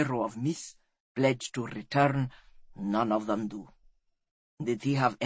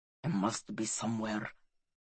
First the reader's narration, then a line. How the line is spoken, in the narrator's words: he whispered